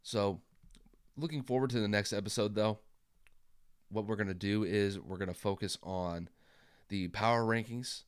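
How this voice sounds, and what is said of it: Worn-out, strained sick voice. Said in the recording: “I've been dealing with the flu the last couple days ... I don't have it in my voice today. My voice is already shot”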